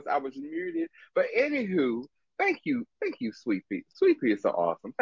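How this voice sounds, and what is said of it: Strong Maryland accent. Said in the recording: “in my very Maryland voice”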